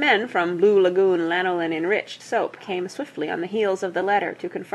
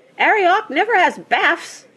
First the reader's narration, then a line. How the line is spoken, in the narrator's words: she squeaked